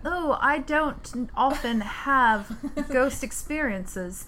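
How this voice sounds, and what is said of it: Put-on British accent. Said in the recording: “Say it in a British accent.”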